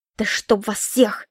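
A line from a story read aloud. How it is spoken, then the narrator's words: Grumbling. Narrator (Russian): проворчала я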